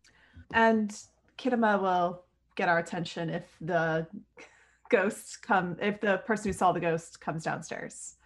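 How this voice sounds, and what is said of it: New Jersey accent on one word. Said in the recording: “that's that Jersey accent coming out... It's like the one word, I can't hide it... it comes out that way”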